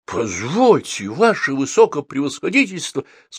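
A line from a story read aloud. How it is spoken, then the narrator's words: Trembling voice. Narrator (Russian): сказал Василий Петрович дрожащим голосом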